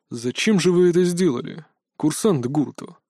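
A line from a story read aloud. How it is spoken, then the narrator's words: Surprisingly calm question. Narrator (Russian): Все еще на удивление спокойно осведомился директор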